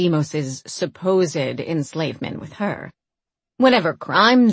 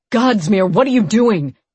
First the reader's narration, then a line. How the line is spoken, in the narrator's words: Deimos shouted, his words lost in the cries of the waiting people and guardsmen